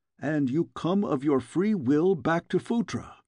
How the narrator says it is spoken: exclaimed one of the guardsmen

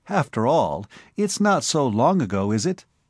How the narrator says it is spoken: she laughed

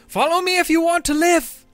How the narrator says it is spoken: screaming

